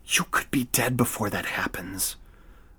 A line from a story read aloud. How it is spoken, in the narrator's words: Noah whispered